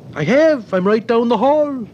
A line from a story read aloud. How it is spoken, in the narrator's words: cried the Brodkins